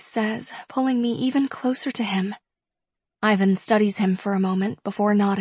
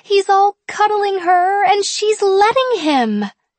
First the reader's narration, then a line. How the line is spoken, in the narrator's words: Penelope says excitedly